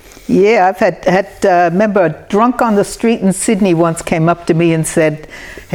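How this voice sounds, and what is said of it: New Jersey American accent. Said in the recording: “anyone that understands an accent has probably picked it by now ... you're from New Jersey”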